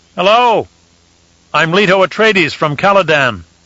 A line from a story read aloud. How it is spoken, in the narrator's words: called out